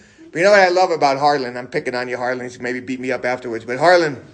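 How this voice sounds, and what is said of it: Usual voice. Nothing is said of it.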